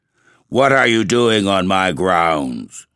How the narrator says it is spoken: said the black man with a hoarse, growling voice

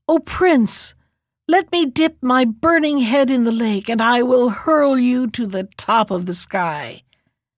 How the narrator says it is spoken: the dragon cried

